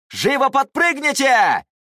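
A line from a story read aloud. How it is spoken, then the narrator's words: Shout. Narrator (Russian): он крикнул ученикам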